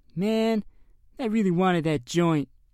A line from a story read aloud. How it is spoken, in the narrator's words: Tom moaned